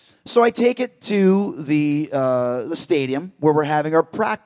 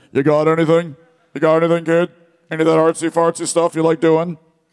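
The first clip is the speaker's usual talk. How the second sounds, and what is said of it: Shawn Michaels impression. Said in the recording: “I can't do a Shawn Michaels accent, but maybe it's probably better than my Irish accent.”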